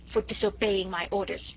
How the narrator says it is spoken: he added, with a snarl

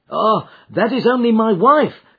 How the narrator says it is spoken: cried the commissionaire

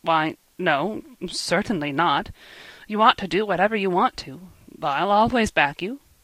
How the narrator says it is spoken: said in an embarrassed tone

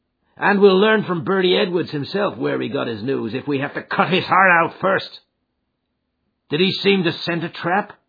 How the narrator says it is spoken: McMurdo laughed

